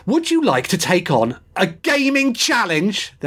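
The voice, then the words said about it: Shouting. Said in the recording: “They're in caps, that's why I'm shouting.”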